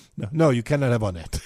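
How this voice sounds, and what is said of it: Failed Bahamian accent, sounds Eastern European. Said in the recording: “he spoke like he was from Eastern Europe ... you cannot do a Bahamian accent”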